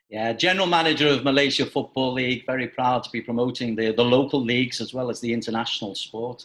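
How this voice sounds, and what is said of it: Liverpool accent. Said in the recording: “you might be able to tell from his accent that ... is also a native of Liverpool”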